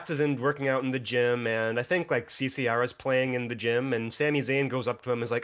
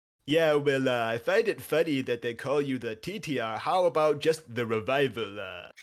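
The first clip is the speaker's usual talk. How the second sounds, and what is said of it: Connecticut accent impression. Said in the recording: “the best impression of Triple H I've ever... it's incredibly accurate... that's the most Connecticut accent I've ever heard”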